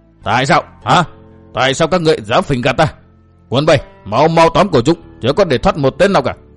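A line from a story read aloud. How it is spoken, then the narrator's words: Furious outburst. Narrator (Vietnamese): quan tri phủ tức giận lồng lên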